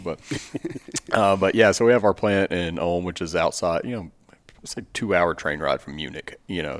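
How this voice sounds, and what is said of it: Long drawl. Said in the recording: “even with my long drawl”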